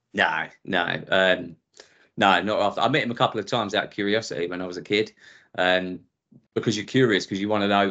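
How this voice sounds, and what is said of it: Essex English accent. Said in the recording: “you probably tell from my accent ... Essex”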